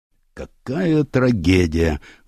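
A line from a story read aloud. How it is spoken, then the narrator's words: Sighing. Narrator (Russian): вздохнул следователь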